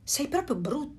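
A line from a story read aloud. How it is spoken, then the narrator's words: Ducks exclaiming. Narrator (Italian): esclamarono le anatre selvatiche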